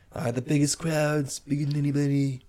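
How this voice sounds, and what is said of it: Donald Trump impression. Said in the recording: “I feel like I'm looking up a Trump rally. ... What a great impersonation.”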